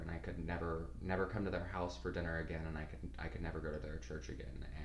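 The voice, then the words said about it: Choked up, emotional voice. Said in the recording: “I'm getting all choked up now.”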